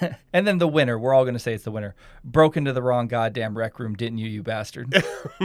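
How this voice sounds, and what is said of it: Usual voice. Nothing is said of it.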